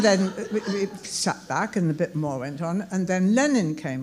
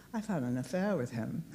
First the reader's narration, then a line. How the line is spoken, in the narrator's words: I said quietly to the stage manager next to me